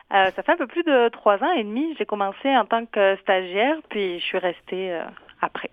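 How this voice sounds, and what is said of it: Southern French (Midi) accent. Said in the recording (French): “Je détecte un accent du Midi.”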